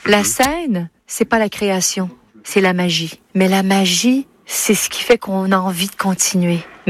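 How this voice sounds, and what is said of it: Quebec French accent, diphthongized vowels. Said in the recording (French): “dans ses interviews, bah, elle retrouve son accent québécois ... elle dit la scène, avec une sorte de diphtongaison, autrement dit un allongement”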